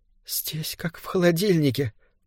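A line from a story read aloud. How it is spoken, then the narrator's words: Muttering. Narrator (Russian): пробормотала она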